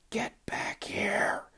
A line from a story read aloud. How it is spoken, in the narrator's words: whisper shouted